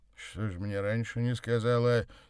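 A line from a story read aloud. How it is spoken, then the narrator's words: Angry question. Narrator (Russian): сердито спросил Савва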